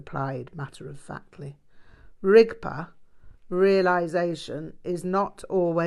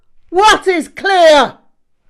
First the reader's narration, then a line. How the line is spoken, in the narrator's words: He barked back at terrific volume